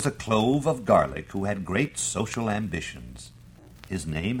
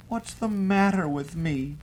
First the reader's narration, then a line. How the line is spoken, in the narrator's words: cried the clove of garlic into his pillow